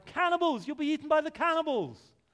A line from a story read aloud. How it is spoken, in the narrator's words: Dickinson, got exasperated with him and cried